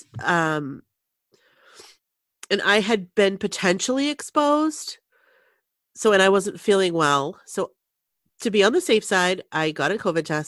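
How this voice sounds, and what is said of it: Nasal, stuffy cold voice. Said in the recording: “you can hear it in my voice. Like it's kind of turned into this just cold, like it's a regular cold. So if I sound a little nasally, a little stuffy”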